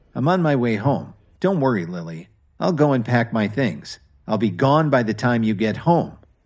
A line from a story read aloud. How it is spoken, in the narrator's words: Kevin replied coldly